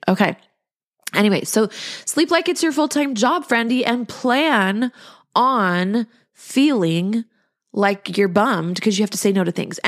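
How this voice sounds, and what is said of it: Nasal, stuffy voice. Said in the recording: “like my voice is all nasally because my nose is all stuffy”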